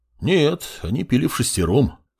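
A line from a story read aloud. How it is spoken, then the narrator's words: Amused grunt, man. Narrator (Russian): хмыкнул мужчина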